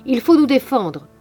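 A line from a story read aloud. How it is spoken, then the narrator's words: Shouting. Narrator (French): criait-il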